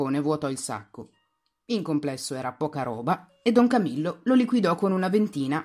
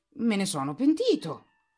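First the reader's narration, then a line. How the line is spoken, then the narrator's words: Exclaimed. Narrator (Italian): esclamò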